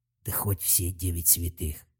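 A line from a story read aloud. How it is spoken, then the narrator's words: Trembling mutter. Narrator (Russian): пробормотал Талфан дрожащим голосом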